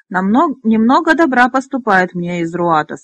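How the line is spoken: Growling voice. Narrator (Russian): сказал Фекс, голосом похожим на рычание

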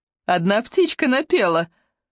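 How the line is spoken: Laughing. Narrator (Russian): рассмеялась девять жизней

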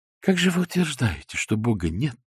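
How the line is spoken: Warm heartfelt voice. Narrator (Russian): начал Алоизий Морошек задушевным голосом

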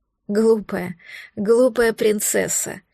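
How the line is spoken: Laughing. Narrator (Russian): Смеялся он

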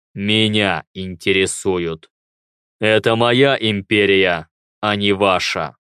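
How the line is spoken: Emperor's gloomy remark. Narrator (Russian): мрачно заметил император

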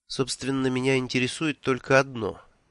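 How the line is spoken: Suspiciously calm. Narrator (Russian): все тем же подозрительно спокойным тоном сказала она

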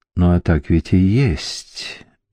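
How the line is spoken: Ancient vampire, soft. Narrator (Russian): мягко заметил древний вампир

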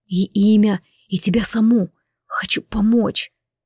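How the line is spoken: Quiet. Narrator (Russian): так же тихо ответил незнакомец

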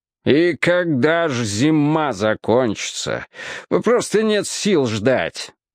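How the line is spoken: Exclaiming. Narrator (Russian): воскликнул он

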